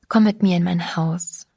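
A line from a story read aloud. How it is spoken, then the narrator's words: Gentle invitation. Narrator (German): lud ich sie sanft ein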